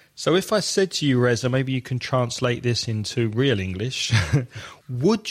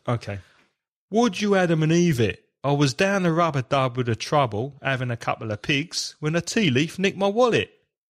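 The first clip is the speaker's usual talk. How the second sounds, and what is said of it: Put-on London accent. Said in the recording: “do it now with the accent ... Go on, do it with the accent too, London accent.”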